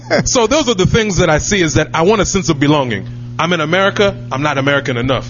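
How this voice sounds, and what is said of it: American accent. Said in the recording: “I speak with an American accent”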